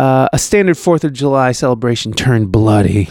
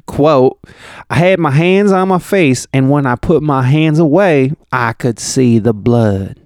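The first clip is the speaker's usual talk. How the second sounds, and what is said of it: Put-on Southern American accent. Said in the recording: “I can't do it properly, so I'm just going to do a southern accent.”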